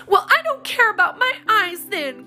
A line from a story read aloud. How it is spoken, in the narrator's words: cried Polly